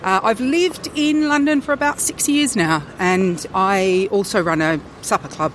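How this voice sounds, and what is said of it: Non-posh, non-British accent. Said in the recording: “You can probably tell that my accent is not particularly pure posh British.”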